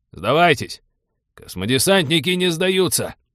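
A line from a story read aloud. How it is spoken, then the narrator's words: Automatic bark. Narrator (Russian): На автомате рявкнул капитан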